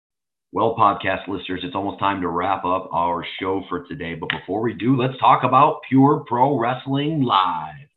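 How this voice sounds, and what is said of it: Goofy announcer voice. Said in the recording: “do your goofy announcer voice ... I thought I was doing my announcer voice.”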